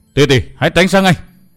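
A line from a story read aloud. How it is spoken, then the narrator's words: Roaring shout. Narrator (Vietnamese): Vân Thiên Hào gầm thét một tiếng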